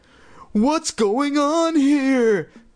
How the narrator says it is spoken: Chris cried aloud

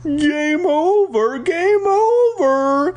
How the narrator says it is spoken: Flag shouted

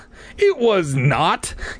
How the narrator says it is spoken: Clay cried angrily

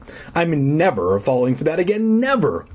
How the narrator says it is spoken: I cried

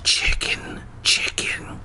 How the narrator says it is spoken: I whispered

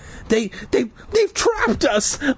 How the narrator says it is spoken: I stammered

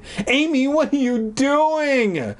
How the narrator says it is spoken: Sarah cried

